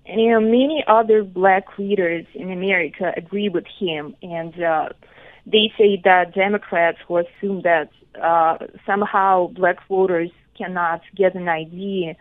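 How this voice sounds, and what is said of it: Strong accent. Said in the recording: “You have a strong accent, which is very cool.”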